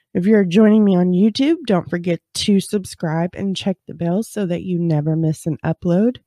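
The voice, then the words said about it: Nasal, congested voice. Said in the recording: “if you can't tell, I'm a little nasally. ... I have a little bit of a cold. ... this head cold”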